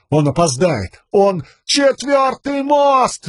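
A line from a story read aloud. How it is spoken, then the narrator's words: Yelling. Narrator (Russian): заорал Каладин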